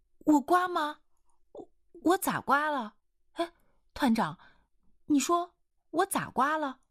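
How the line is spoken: Earnest pressing questions. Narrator (Chinese): 一清河这样真诚地追问着

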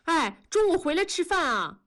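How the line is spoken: Calling after someone. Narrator (Chinese): 童母就追着喊

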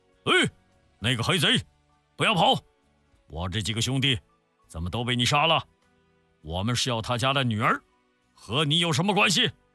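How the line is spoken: Shouting while charging. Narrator (Chinese): 边喊

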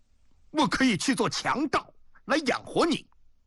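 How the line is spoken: Stunned, loud. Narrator (Chinese): 宋仲愣住了，愣了半天才大声说

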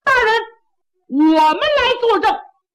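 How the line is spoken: Loud shout from below. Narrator (Chinese): 下边有人高喊

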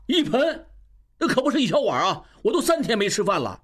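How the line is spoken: Shouting. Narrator (Chinese): 应余大叫

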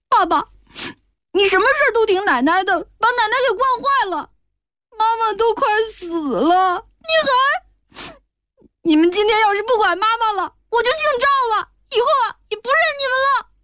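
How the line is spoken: Crying child. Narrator (Chinese): 小孩子哭道

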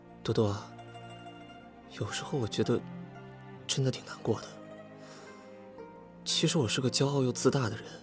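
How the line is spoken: Soft, after long pause. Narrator (Chinese): 沉默地想了很久，然后轻声地说

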